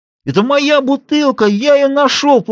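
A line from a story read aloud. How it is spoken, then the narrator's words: Whiny wail. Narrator (Russian): плаксивым голосом взвыл Рикард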